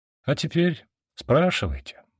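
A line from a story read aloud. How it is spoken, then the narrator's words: Sighing. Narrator (Russian): вздохнул я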